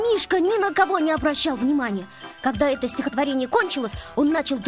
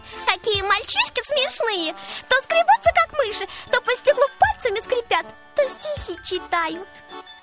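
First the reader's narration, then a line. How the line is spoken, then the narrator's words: Giggling. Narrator (Russian): Леночка стала хихикать и говорить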